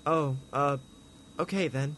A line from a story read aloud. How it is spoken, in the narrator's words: Tina said sadly to herself